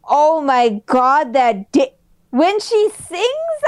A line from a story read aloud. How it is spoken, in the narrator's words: I laugh